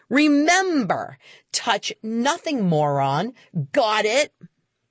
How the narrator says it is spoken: shouting back

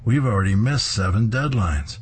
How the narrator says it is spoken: he exclaims

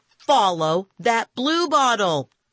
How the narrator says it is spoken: I shouted

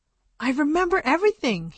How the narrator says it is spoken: said cheerfully

